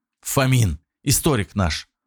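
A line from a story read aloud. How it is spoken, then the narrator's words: Quick whisper. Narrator (Russian): успел шепнуть Никита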